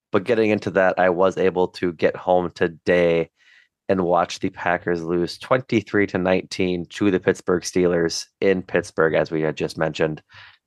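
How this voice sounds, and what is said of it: Hoarse, strained voice. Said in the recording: “my voice is shot. So I apologize if I sound a little different.”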